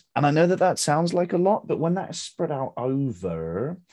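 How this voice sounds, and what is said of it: Speaker's own regional accent. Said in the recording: “there's my accent coming through”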